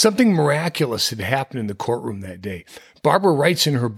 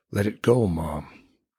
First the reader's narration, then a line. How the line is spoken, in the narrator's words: Dana was somehow whispering in her ear